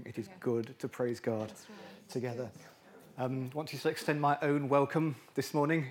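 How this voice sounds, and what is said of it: Strained, fading voice. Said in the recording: “I feel as if I might be slightly losing my voice”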